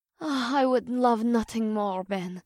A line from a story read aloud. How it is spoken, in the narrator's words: Lizanne sighed, though her eyes were heavy with exhaustion